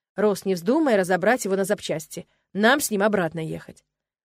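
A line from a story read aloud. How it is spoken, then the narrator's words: Stern. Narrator (Russian): строго произнес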